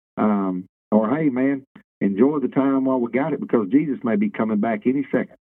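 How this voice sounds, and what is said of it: Faster, raised voice, Central Louisiana dialect. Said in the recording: “your voice picked up a little bit. You kind of talked a little bit faster. I think that Central Louisiana dialect came out a little bit stronger right there.”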